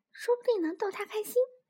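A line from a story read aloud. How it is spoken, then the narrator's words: Whispering. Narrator (Chinese): 小老鼠小声的跟小松鼠说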